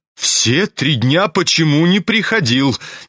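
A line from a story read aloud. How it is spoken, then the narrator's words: Impatient shout. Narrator (Russian): нетерпеливо крикнула она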